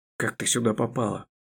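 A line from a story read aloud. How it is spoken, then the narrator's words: Hoarse, strained question. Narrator (Russian): Хрипло и с каким-то надрывом спросил мой книжный герой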